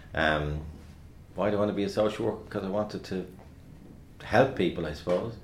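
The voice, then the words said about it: Dublin working-class accent. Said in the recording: “Definitely not the Trinity voice, and definitely not the RTE voice because of my Dublin working class accent”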